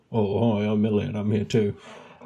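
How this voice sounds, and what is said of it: Imitates another person's voice. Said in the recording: “do his voice”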